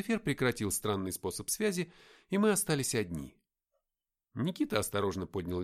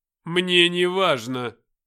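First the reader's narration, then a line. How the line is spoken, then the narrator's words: Cold. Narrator (Russian): холодно ответил он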